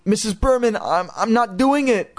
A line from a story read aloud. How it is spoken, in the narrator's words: Chris stammered